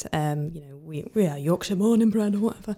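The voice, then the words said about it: Poor attempt at Yorkshire accent. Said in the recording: “that was the worst attempt at the Yorkshire accent I've ever heard ... It wasn't even northern”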